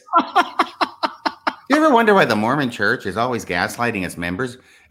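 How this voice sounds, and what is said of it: Imitates another person's voice. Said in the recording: “Your Rooney impression was great. I almost wanted to hear a ticking clock before you.”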